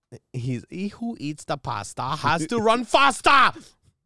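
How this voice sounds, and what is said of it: Bad put-on German accent. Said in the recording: “my German impersonation... I have a horrible German impersonation.”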